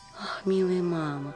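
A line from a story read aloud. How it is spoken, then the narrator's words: Whisper. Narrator (Russian): прошептала Мари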